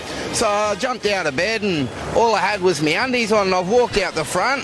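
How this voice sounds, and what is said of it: Australian accent. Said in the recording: “I just love Aussie accents”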